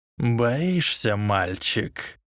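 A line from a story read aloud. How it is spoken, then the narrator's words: Snake-like hiss. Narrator (Russian): прошипел Волан-де-Морт, словно даже в человеческой речи темного лорда оставалось что-то от Парсилтанга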